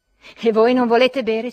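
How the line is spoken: Impatient threatening yell. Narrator (Italian): si mise a urlare Trudor Ljubov, che aveva perduto la pazienza, rivolgendosi minacciosamente

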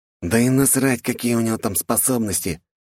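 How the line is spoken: Older man hissing. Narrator (Russian): прошипел один из них, тот, что с виду был старше

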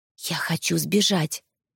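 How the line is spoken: Confiding whisper. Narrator (Russian): прошептала доверительно

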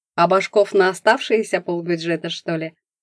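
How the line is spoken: Mocking question. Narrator (Russian): насмешливо спросил Климов

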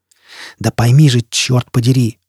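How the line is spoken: Furious hiss. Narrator (Russian): яростно прошипел Шеффилд

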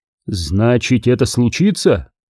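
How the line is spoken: Plain. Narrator (Russian): сказал Астреус

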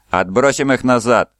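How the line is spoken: Shouted. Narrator (Russian): закричал Фаэль Тарон

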